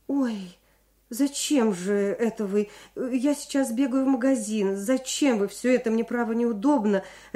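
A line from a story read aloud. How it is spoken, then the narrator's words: Flustered, fussing. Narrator (Russian): растерянно суетилась рядом Людмила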